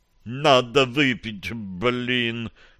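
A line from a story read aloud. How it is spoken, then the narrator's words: Muttered. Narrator (Russian): пробормотал Дионис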